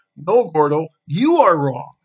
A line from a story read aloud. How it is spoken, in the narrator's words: Kai, Big J, and Mystica burst out as one, drowning each other out, and exclaimed